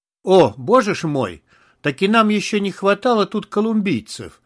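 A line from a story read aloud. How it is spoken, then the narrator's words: Cheerful exclamation. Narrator (Russian): весело воскликнул Исакович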